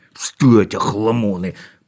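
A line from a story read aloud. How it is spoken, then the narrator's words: Hiss. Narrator (Russian): прошипел он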